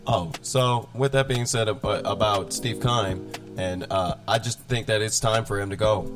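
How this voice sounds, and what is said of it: Slightly hoarse voice. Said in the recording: “my voice sounds a little hoarse ... sore throat”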